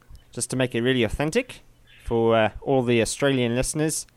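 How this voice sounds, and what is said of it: Put-on Australian accent. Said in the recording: “my Australian accent ... my Australian accent”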